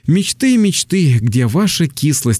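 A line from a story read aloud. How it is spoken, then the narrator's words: Sighed. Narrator (Russian): вздохнул я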